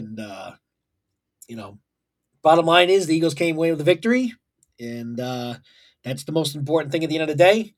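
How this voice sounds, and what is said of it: Hoarse, strained voice. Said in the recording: “apologize for my voice. ... Hasn't fully come back yet. A lot of screaming and yelling”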